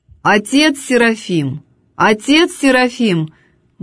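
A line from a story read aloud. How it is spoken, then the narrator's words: Loud call. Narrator (Russian): громко позвала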